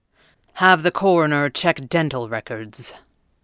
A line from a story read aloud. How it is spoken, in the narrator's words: the Red Panda said grimly